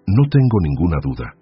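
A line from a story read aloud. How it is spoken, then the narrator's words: Firm voice. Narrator (Spanish): dijo Anselmo con voz firme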